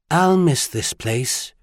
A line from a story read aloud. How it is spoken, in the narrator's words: she said almost wistfully